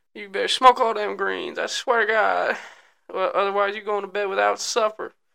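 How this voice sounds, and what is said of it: Put-on Southern American accent. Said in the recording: “my southern accent always just turns to like Bill Clinton after a while ... I can't even do it right. I don't even think that's a really good Bill Clinton ... it's not even redneck”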